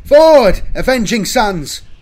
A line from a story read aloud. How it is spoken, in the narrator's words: Velus cried